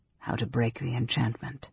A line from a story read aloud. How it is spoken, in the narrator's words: Raistlin finished softly